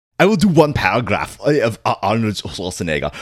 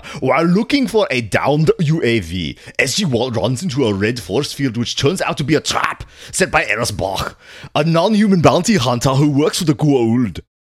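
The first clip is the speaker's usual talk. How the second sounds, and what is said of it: Imitates another person's voice. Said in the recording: “do the entire synopsis in Arnold Schwarzenegger accent”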